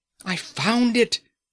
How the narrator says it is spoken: Fardin cried

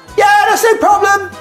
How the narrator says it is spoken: she says, yelling

